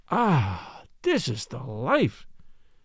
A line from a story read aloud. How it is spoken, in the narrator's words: he sighed to Dionysus